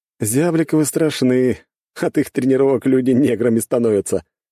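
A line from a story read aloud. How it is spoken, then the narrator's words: Short chuckle. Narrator (Russian): хохотнул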